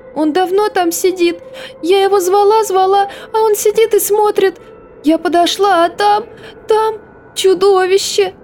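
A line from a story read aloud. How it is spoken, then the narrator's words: Little sister sobbing bitterly. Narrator (Russian): Сестренка разрыдалась горше прежнего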